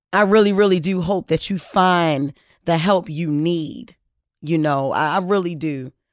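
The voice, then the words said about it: Emotional, moved voice. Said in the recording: “I know y'all can hear me getting emotional right now”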